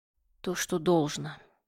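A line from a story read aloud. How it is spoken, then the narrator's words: King speaking wearily. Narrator (Russian): устало произнес король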